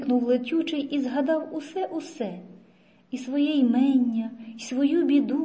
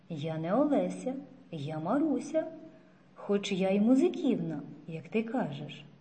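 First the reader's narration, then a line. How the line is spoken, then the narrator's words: Quiet girl. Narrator (Ukrainian): тихо промовила дівчина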